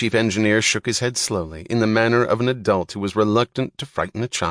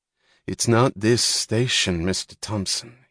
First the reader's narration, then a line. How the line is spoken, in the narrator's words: he said softly